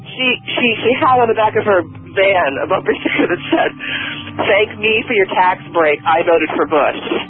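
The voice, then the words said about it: Low, early-morning voice. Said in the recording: “It's early, my voice is low”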